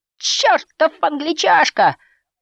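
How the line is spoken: Pained groan. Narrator (Russian): простонал Рой, столкнувшись с игроком защиты

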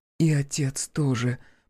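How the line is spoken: Almost whispering. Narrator (Russian): почти шепотом добавила Василиса

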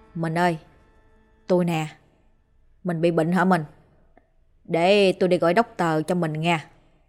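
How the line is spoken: Soft, gentle. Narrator (Vietnamese): Tuấn nhỏ nhẹ

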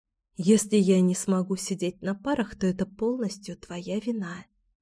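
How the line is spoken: Whispering. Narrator (Russian): зашептала Алексия

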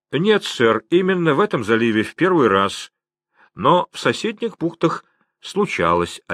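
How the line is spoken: Plain. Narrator (Russian): ответил англичанин

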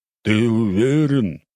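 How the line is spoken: Man's growl. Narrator (Russian): прорычал мужик

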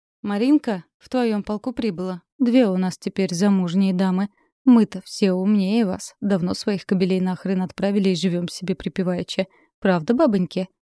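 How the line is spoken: Sad laughing. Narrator (Russian): Грустно рассмеялась Олеся Игоревна

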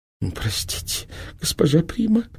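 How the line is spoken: Thin whining voice. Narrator (Russian): тоненьким голосом проныла инфанта

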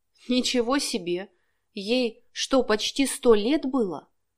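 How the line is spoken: Whisper. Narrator (Russian): прошептала Лариса

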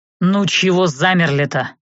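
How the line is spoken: Irritated. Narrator (Russian): Раздраженно уставился на нас Анхайлик

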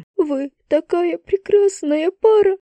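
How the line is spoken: Sobbing. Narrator (Russian): Еще раз всхлипнула она

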